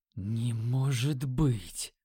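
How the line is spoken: Whisper. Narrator (Russian): Прошептал я

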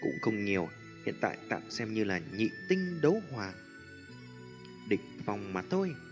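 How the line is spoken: Light laugh. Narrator (Vietnamese): Tiêu Viêm cười nhẹ

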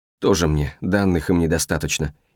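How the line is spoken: Quiet cursing. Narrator (Russian): Наяна тихонько ругнулась

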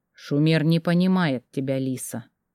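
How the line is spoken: Quiet. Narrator (Russian): тихо ответил Феликс

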